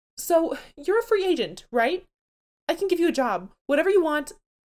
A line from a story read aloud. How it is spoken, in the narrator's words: She starts to desperately babble